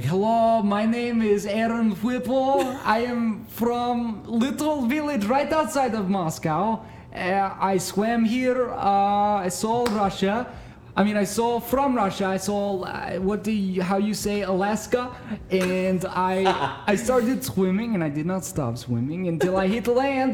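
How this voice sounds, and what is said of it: Put-on Russian accent. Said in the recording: “I would do this Russian accent when I would introduce myself ... I can do a Russian accent.”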